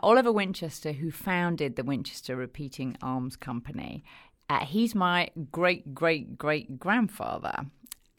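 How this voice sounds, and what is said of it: London English accent. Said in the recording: “accent, which does hail from London, England”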